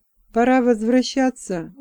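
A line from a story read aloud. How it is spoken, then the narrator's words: Tired voice. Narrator (Russian): усталым голосом проговорил Рамиорг из рода оргов, старший дружинник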